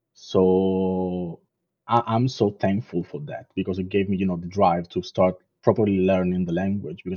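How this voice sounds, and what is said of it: Non-native accent in English. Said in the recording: “you can still feel my accent and, some words are off”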